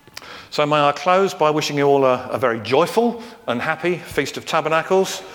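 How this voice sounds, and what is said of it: English accent. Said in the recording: “a Jewish person with a rather bad English accent like me”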